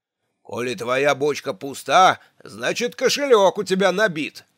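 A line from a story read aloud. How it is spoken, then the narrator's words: Barked. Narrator (Russian): рявкнул Хордл Джон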